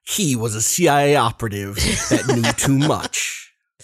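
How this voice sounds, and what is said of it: Dramatic movie trailer narrator voice. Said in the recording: “I love your impression. It's so good. ... That could be any movie.”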